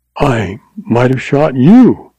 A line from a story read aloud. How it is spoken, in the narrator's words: she exclaimed